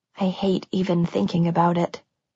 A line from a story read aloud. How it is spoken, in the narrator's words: she whispered, her voice breaking